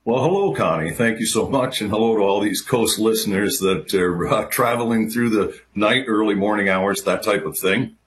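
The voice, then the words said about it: Polished radio announcer voice. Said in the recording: “there's another guy with a radio voice. Holy cow, he sounds fantastic.”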